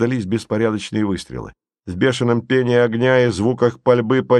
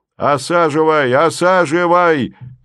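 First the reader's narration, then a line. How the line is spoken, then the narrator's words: Two sergeants shouting. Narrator (Russian): кричали оба вахмистра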